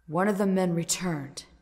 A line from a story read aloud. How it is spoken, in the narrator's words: Toru admitted, his voice grave